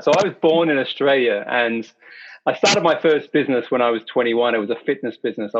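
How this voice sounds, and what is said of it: Hybrid Australian English accent. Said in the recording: “Your English accent ... It's a hybrid Australian English accent”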